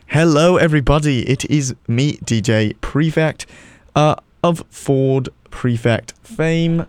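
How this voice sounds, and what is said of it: Put-on British accent. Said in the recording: “Should I do the entire listening broadcast in a British accent? ... if you lose the British accent”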